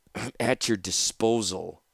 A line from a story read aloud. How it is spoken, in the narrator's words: Taunus said bitterly